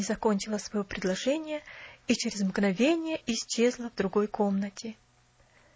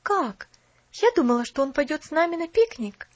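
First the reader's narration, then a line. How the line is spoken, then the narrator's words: Exclaimed. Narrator (Russian): воскликнула она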